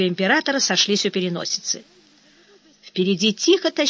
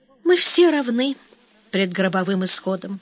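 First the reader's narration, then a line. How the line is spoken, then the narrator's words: Sighing. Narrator (Russian): вздохнул император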